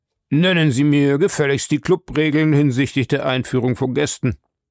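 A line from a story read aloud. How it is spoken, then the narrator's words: Gruff demand. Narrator (German): forderte barsch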